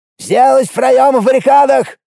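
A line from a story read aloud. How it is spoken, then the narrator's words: Loud yell. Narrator (Russian): заорал он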